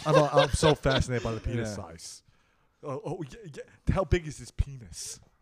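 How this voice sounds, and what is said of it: Imitates another person's voice. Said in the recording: “My Howard Stern impression.”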